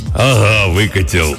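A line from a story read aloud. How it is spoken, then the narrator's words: Hoarse deep bass. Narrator (Russian): ответил индеец хриплым басом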